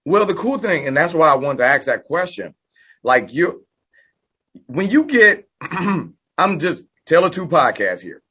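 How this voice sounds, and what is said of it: Slightly hoarse voice. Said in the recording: “Sorry, I'm a little hoarse. I just came from my son's soccer game”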